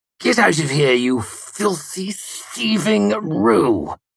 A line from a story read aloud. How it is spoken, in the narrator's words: He spat venomously